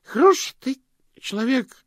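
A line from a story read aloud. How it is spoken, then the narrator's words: Drunken hiccuping. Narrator (Russian): проикал Слыпень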